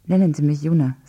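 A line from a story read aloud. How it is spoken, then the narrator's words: Plain. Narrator (German): sagte sie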